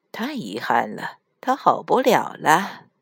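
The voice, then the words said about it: Quiet muttering voice. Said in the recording (Chinese): “死神小声嘀咕了一句”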